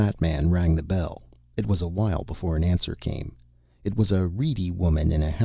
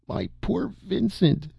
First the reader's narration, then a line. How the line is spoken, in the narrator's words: sobbed